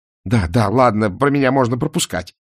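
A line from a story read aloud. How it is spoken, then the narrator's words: Irritated bark. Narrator (Russian): раздраженно рявкнул Мор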